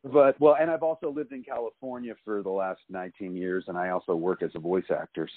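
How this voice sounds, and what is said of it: Neutral standard American accent. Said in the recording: “my accent is so neutral ... I seem to remove every trace of an accent ... I have that, like, straight on American accent”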